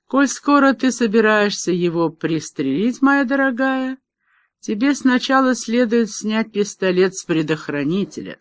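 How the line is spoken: Calm speech. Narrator (Russian): спокойно произнес

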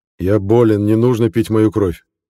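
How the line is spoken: Sudden loud clear voice. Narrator (Russian): Неожиданно громко и четко сказал Саша

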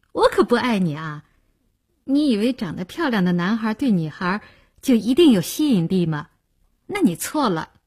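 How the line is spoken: Laughing. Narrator (Chinese): 林星听了笑道

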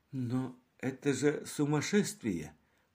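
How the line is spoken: Doctor finally muttering. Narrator (Russian): пробормотал наконец доктор

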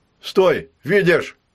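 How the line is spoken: Shout. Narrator (Russian): крикнул Федя

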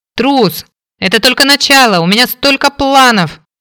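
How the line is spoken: Shouting after someone. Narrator (Russian): прокричала вдогонку братцу

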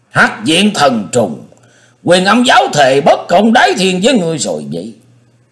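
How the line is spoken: Thunderous shout. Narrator (Vietnamese): Kim Thử Sư Dương hét lừng lững

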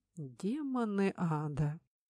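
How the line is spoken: Quiet curse. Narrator (Russian): Негромко выругался принц

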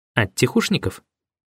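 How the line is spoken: Skeptical snort. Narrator (Russian): Прохор Петрович хмыкнул

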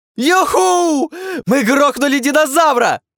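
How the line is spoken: Full-throated yell. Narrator (Russian): Во все горло заорал Дайме

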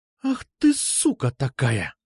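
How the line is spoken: Hissed. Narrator (Russian): прошипела она

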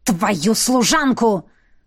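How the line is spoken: Flushed, angry hiss. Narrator (Russian): прошипел граф, покраснев

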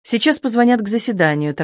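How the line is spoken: Hurried finish. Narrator (Russian): торопливо закончил Шаховской

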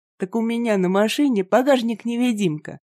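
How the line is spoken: Laughing. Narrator (Russian): рассмеялся фермер

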